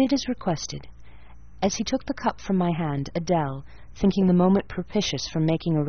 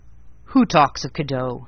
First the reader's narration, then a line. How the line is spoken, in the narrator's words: he said gruffly